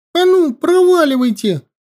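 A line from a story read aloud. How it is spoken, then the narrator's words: Shout. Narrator (Russian): крикнул он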